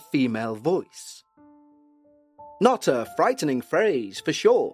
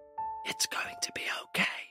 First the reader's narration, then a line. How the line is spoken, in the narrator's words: a whisper in her ear saying